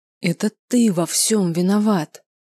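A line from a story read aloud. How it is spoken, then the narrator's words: Angry hiss through teeth. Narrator (Russian): Процедил я сквозь зубы, сама пугаясь злоби в голосе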